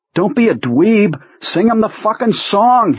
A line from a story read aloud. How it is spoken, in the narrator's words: Henry shouts